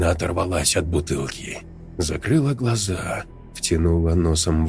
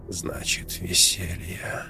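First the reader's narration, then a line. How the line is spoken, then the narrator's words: Whisper. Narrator (Russian): прошептала она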